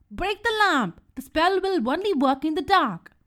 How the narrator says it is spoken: Bibo screamed

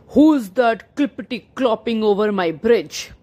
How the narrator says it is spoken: He growled

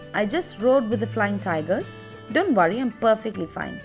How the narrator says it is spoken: I replied very calmly

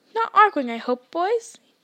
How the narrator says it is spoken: squeaked

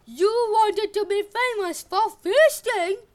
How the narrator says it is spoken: Demeter roared

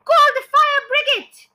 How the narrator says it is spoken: shouted suddenly

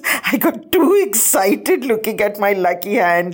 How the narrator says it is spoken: Satya laughed

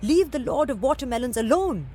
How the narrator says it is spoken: the watermelon seller cried

